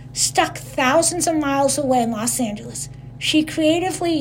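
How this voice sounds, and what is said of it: Usual voice. Nothing is said of it.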